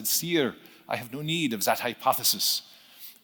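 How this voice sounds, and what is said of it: Put-on French accent. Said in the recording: “That was my French accent”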